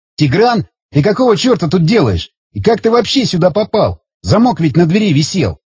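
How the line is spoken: Indignant. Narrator (Russian): возмущенно заговорил Александр

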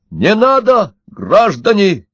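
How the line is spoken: Shout. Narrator (Russian): закричал Удалов

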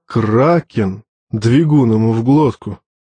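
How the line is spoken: Grumbling, stocky man. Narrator (Russian): проворчал крепыш

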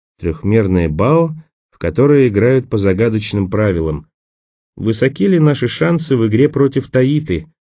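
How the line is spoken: Sad. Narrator (Russian): Печально покачал головой Николас

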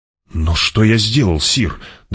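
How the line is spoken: Trembling question. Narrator (Russian): дрожащим голосом спросил Нефут

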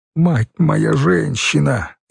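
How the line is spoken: Nearly sobbing with joy. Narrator (Russian): едва не рыдал от счастья Хорь

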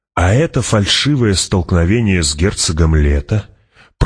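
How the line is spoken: Purring. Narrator (Russian): промурлыкал император

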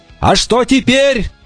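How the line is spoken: Shouted while running. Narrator (Russian): на бегу крикнул он

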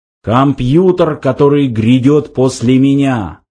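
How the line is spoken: Solemn shrill machine voice. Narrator (Russian): торжественно объявил пронзительный интеллектомат

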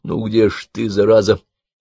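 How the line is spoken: Angry mutter. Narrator (Russian): сердито пробормотал

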